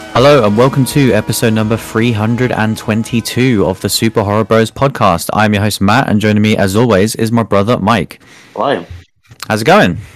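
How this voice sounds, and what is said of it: Hoarse, rough recovering voice. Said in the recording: “I'm slowly recovering. My voice is uh, nearly there now... it is purely the voice... you just sound like me now when I've had like three weeks.”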